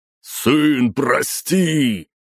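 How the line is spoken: Shouting over roaring vortex. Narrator (Russian): Перекрикивая завывание энергетического вихря, прокричал князь

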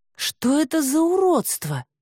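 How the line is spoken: Breathy exhale. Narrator (Russian): выдохнула она

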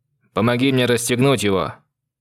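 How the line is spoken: Loud. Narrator (Russian): произнес громко

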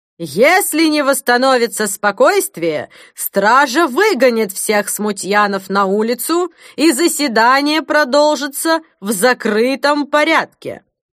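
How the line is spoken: Loud shout over commotion. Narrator (Russian): Чтобы подавить волнение, епископ прокричал

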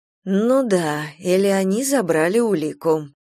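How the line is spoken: Gloomy remark. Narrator (Russian): мрачно заметила

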